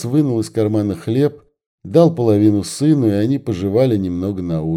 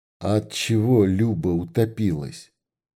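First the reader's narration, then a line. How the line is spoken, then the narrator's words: Whispered. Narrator (Russian): прошептал Никита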